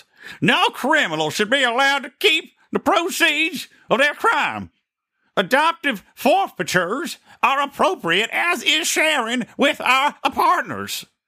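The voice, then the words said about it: Jeff Sessions impression. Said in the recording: “I should read this like Jeff Sessions in my Jeff Sessions voice.”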